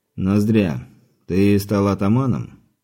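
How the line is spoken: Seemingly calm, unsettling. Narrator (Russian): Сказано вроде спокойным тоном, но отчего-то не по себе от этого голоса

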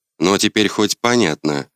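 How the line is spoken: Snort. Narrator (Russian): хмыкнул

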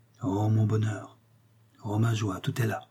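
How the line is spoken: Murmured. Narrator (French): murmura Sœur Évrard

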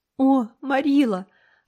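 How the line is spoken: Muffled sobbing. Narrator (Russian): рыдала Энн, не поднимая головы

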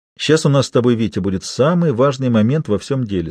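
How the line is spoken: Plain. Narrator (Russian): сказал он Смелякову

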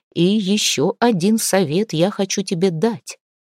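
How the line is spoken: Quiet addition. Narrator (Russian): тихо добавил он

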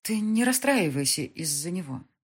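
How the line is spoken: Sighing. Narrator (Russian): вздохнула Мика

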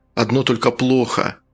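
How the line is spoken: Sighing. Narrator (Russian): Фунтик вздохнул

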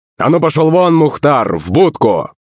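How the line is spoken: Rough shout, familiar voice. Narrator (Russian): Грубо закричал знакомый голос

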